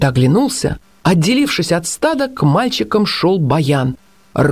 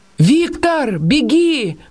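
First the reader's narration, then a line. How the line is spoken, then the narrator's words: Shout. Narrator (Russian): крикнул Никита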